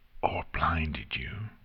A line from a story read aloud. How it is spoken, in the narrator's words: Nightmare Moon whispered so quietly, Nexus was unable to properly understand what she said